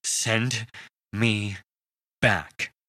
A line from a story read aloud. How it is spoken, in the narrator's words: he said between deep, gasping breaths